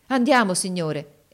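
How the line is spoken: Enthusiastic exclamation. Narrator (Italian): esclamò egli con trasporto

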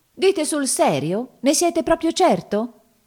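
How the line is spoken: Exclaimed. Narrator (Italian): esclamò

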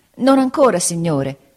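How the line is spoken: Pained exclamation. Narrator (Italian): esclamai indietreggiando per il dolore

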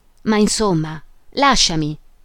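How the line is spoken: She exclaimed again. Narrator (Italian): esclamò lei ancora

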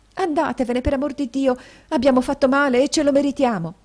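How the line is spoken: Young woman exclaiming. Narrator (Italian): esclamò la signorina

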